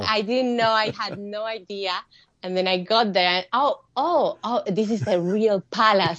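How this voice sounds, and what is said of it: Non-native English accent. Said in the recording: “with my accent”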